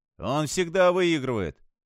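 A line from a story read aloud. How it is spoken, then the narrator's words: Joyful confirmation. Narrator (Russian): радостно подтвердил Майк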